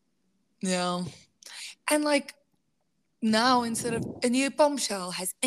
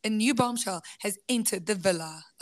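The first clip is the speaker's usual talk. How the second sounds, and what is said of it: Put-on South African accent. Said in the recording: “with a South African accent”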